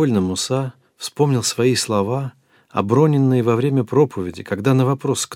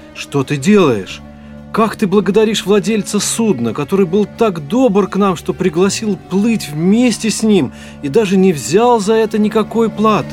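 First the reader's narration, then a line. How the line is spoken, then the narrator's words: Shout. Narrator (Russian): Он крикнул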